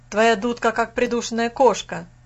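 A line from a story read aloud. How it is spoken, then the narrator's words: Shouted. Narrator (Russian): крикнул Фас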